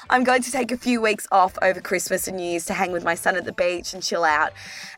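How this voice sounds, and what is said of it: Hoarse, strained, fading voice. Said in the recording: “You could probably hear that I am losing my voice.”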